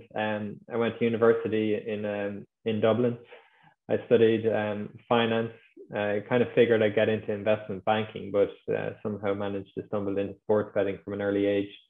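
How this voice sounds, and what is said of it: Irish accent. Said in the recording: “I'm from Ireland, as you might be able to tell from the accent.”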